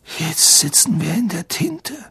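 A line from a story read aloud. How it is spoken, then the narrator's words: Hoarse. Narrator (German): sagte heiser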